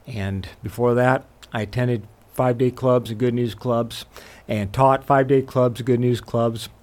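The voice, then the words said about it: Slight Southern American accent. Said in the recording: “I have a little bit of a Southern accent”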